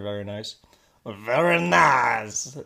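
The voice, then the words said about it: Imitates another person's voice. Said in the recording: “That's my Austin Powers impression. I'm just kidding, it was Borat.”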